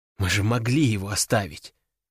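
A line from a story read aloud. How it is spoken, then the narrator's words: Quiet but firm. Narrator (Russian): тихо, но твердо сказала она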